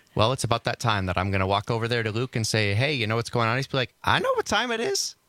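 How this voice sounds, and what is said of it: Impression with a lilt at the end. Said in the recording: “spot on impression of you ... It's that little lilt at the end.”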